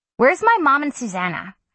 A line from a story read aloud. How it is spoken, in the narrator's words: I snapped